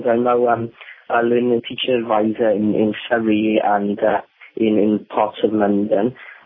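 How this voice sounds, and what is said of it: Welsh accent. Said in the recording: “with a Welsh accent”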